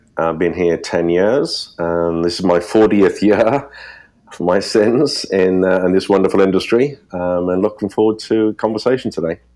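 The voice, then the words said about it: British accent. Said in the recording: “you'll guess from my accent, originally from the UK”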